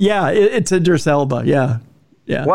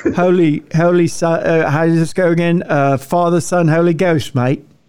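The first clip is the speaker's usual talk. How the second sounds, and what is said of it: Put-on British accent. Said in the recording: “British accent”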